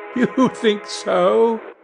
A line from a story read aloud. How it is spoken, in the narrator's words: He laughed again